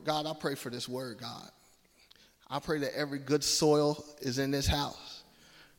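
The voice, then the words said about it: Slight Southern twang. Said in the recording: “I got a little Southern twang and a little articulation at the same time... if I say something a little country”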